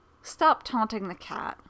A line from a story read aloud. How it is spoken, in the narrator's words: Comet says